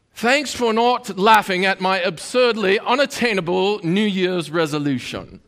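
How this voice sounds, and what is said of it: Reading caption in put-on accent. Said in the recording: “I don't know why that had an accent with it, but it just comes. It just looks like they might talk that way.”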